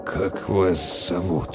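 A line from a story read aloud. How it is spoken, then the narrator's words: Uncertain question. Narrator (Russian): неуверенно спросил Толт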